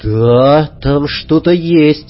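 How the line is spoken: Breathed out. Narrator (Russian): выдохнул я

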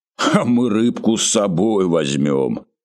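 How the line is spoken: Deep-voiced laugh. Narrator (Russian): засмеялся директор густым голосом

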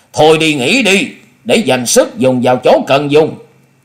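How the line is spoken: Cold call from below. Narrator (Vietnamese): Hùng Tuấn lạnh lùng nói vọng lên

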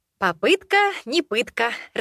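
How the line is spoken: Laughing. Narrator (Russian): рассмеялась

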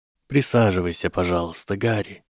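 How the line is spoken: Quiet. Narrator (Russian): тихо сказал мужчина

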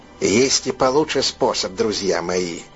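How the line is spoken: Quiet creaky secretive voice. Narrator (Russian): тихим голосом проскрипел Сэмми Мэс, как будто боялся, что их может кто-нибудь подслушать

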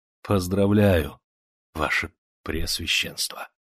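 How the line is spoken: Wheezing dying whisper. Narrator (Russian): Дыхание со страшным хрипом вырывалось из груди, прошептал

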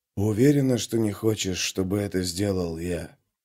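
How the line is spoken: Rustling whisper. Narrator (Russian): спросил он своим шелестящим шепотом

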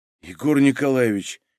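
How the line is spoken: Lifeless flat voice. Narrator (Russian): безжизненным голосом сказал Шмелев

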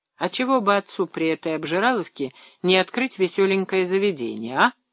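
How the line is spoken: Chuckling. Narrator (Russian): хохотнул Леонид

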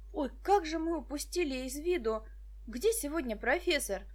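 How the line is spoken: Exclamation. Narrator (Russian): воскликнул Денис

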